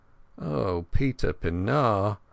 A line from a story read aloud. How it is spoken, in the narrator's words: I groaned inwardly